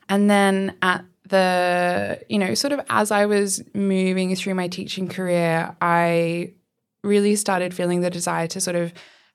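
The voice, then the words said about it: Australian accent, somewhat unusual. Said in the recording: “maybe you can tell from my accent, although it's a bit strange. I am originally from Australia”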